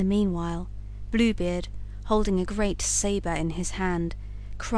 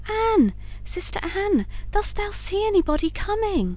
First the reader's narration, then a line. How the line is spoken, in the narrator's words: said his wife, and then she cried out softly